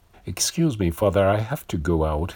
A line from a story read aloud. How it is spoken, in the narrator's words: he said